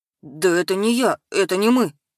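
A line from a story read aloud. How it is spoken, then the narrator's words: Babbling. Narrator (Russian): Лепетал Костыль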